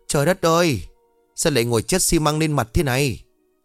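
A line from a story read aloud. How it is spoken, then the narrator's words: Panicked shout. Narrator (Vietnamese): Ông lúc này hoảng sợ rồi hét lên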